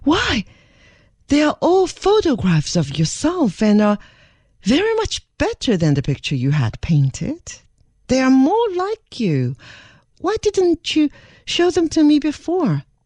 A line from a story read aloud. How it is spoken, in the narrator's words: she exclaimed in much surprise